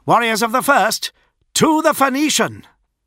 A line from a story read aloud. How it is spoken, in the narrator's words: Julius shouted